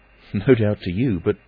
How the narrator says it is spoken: Kemp laughed

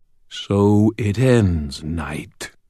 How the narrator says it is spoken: purred the smooth demon voice of Ursiel

